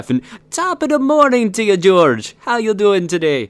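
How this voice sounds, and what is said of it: Attempted Irish, came out Jamaican accent. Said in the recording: “I turned Jamaican. That is so not Irish ... It started off like he's going to Irish. No, he went Jamaican ... I went full Cool Runnings”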